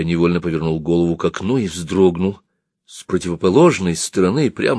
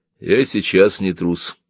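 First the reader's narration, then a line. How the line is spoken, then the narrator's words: Calm. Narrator (Russian): он сказал это спокойно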